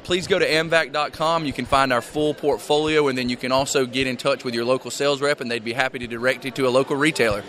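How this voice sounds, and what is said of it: Southern US accent. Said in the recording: “See a South Georgia man. Somebody understands a good Southern accent.”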